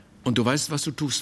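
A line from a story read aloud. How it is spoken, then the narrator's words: Plain. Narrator (German): fragte der Maler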